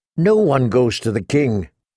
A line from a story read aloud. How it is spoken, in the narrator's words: Corain Sathmentes replied firmly